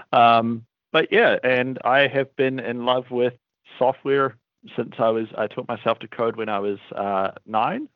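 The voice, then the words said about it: New Zealand accent. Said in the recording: “Wellington, New Zealand, which is also where my accent is from. It's not from sort of morning drinking”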